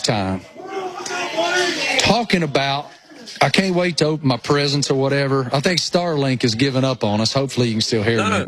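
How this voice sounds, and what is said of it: Thick rural Appalachian accent. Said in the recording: “I am such a hillbilly redneck that it's unbelievable how thick my, you know, rural Appalachian accent is”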